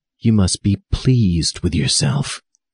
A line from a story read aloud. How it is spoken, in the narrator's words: he whispered, sneering